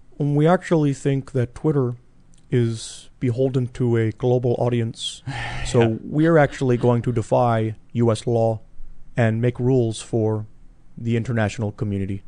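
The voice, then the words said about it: Slow imitation of another person's voice. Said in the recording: “I'm actually doing an imitation of Seamus, doing an imitation of Jack Dorsey... But slower... A bit slower”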